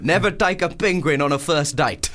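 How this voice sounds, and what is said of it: Good put-on South African accent. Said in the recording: “That's a good South African accent ... It's a really hard accent”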